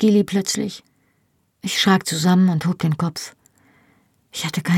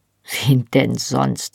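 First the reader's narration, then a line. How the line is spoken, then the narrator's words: Dry retort. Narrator (German): fragte sie trocken zurück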